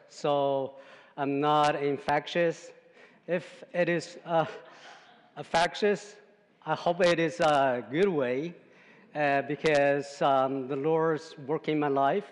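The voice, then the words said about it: Chinese-accented English. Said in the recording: “I have some accent, and I speak not pure English. I speak Chinglish, because it is Chinese English.”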